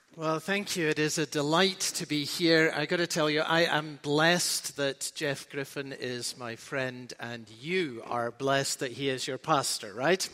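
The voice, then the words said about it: Scottish brogue accent. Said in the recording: “got a weird accent ... the Scottish brogue makes him sound even smarter”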